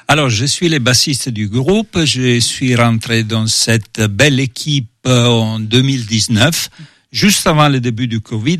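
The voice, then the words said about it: Italian accent speaking French. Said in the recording (French): “vu son accent et son prénom, on imagine ses origines ... Je viens d'Italie.”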